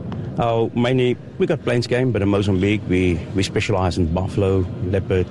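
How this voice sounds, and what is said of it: South African accent. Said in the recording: “Always the greatest accent of all time when I hear one of you guys talk. You're from that area of the world. ... I love your accent.”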